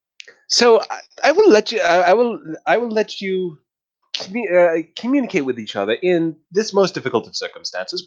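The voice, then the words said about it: Insufferable customer service voice. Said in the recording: “a really insufferable customer service voice”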